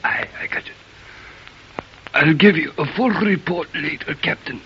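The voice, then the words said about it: Fake hoarse voice. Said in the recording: “have a sore throat ... The oil fumes from the leaking tanks. Your throat. Hoarse.”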